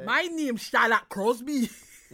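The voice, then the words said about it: Attempted Geordie accent sounding Scottish. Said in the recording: “Say it in a Geordie ... No, that's Scottish.”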